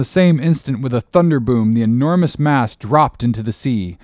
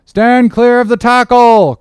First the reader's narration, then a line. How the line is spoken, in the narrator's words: cried a voice like the bursting of a rocket